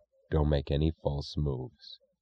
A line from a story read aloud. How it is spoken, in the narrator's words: said in an expressionless voice